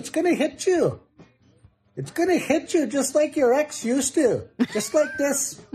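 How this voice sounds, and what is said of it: Stereotyped Native American accent. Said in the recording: “He it's just the perfect native accent ever.”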